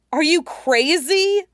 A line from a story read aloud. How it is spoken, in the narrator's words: Toph yelped